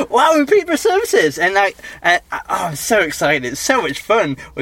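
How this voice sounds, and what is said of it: Loud excited shouting. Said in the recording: “I'm shouting quite loudly, but I'm very excited”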